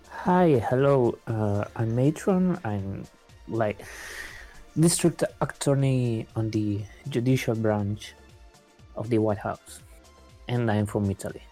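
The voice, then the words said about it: Heavy put-on accent. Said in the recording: “your accent made it seem like you said duck attorney”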